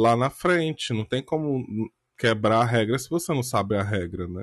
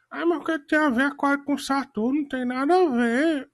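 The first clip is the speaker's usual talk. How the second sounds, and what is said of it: Mocking imitation of someone's voice. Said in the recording (Portuguese): “Imitação ... ficar imitando a voz de alguém que você não concorda”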